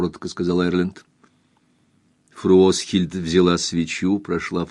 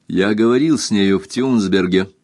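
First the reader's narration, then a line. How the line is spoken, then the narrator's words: Plain. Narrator (Russian): сказал Эрленд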